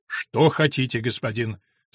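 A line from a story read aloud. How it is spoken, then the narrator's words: Firm tone. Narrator (Russian): сказал он таким твердым тоном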